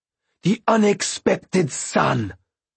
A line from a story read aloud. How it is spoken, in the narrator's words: she snarled at them